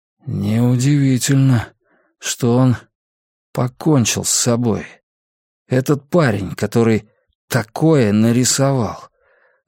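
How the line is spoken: Strained, forced-out words. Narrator (Russian): выдавил Кинул

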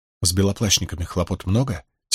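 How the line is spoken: Quiet question. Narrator (Russian): тихонько спросила Найниф

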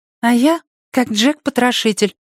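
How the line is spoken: Thin girl's voice. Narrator (Russian): тонким голоском ответила девочка

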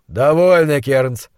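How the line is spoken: Tired interjection. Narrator (Russian): устало вмешался монстролог

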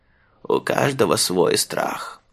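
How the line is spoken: Old man muttering. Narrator (Russian): бормотал дедушка Мыжи Тюмин

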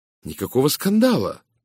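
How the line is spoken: Ardent exclaiming. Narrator (Russian): пылко воскликнул я

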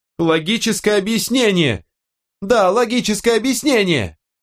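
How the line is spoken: Yell fading away. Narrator (Russian): заорала Кэти, исчезая в коридоре

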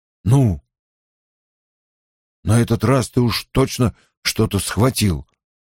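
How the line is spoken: Hoarse. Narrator (Russian): хрипло заметил Перин

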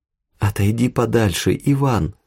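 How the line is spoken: Pleading. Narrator (Russian): взмолилась Тая

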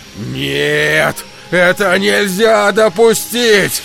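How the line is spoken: Shouting. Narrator (Russian): закричал смотритель управляющий

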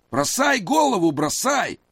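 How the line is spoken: Yelling. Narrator (Russian): заорал он Маронию

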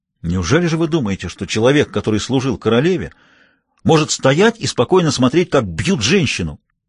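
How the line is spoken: Indignant exclamation. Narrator (Russian): воскликнул в негодовании адмирал

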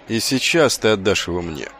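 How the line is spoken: Grim curt retort. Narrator (Russian): мрачно отрезал Воунс

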